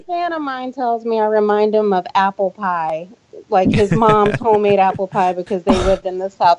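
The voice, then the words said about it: Southern US accent. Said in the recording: “Got that Southern accent ... Sweet and innocent when you hear that Southern accent.”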